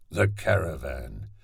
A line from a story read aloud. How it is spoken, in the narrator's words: mumbled another costermonger